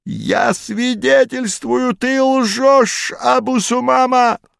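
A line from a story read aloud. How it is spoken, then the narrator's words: Wheezing fat man. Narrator (Russian): прохрипел толстяк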